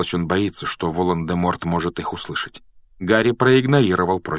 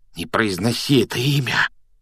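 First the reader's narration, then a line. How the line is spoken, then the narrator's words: Frightened whisper. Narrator (Russian): испуганным шепотом попросил Рон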